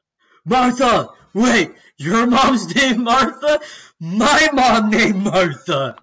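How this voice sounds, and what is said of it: Imitates a movie character's voice. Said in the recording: “He's doing an impression. ... He's still doing the impression that neither of us get.”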